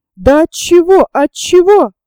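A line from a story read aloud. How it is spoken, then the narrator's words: Desperate shouting. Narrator (Russian): отчаянно кричал Меншиков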